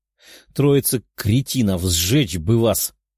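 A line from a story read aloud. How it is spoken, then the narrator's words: Grumbling. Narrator (Russian): ворчала она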